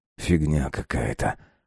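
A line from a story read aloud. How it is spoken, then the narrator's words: Muttered. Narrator (Russian): пробормотал он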